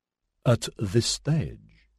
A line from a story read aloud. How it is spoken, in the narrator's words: Sajaki spoke so softly, she largely read his lips